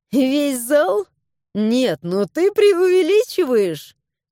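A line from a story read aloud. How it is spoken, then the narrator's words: Giggling. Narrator (Russian): хихикнула я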